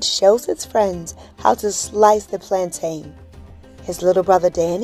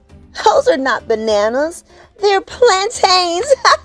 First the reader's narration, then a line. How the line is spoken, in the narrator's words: giggles David